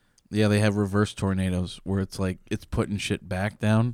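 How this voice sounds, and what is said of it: Usual voice. Nothing is said of it.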